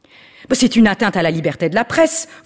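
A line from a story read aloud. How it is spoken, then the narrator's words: Angry shouting paparazzo. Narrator (French): vociféra celui qui prouvait ainsi sa véritable nature de paparazzi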